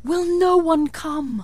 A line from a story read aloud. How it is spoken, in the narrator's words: it cried